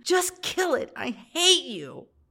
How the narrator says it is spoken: me screaming at him

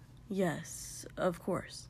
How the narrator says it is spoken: murmured, his cheeks heating inexplicably

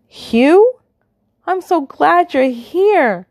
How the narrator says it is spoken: Valentine exclaims

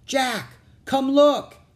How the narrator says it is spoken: Annie shouted

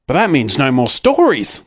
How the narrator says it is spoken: cried Peter

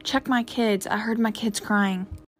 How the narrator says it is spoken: he whispered

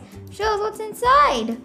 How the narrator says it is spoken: cried Pam

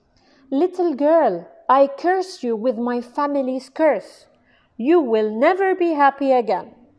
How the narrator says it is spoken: The Archduke hurled the box out the window and shouted

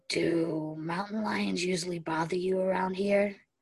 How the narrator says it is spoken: Steric asked, his voice low and soft

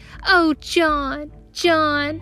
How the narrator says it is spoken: he squealed

